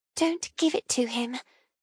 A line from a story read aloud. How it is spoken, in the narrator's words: she whispers